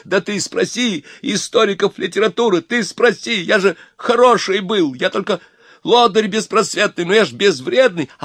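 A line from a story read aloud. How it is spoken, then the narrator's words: Straining, desperate shouting. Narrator (Russian): Обломов кричал ему, надрываясь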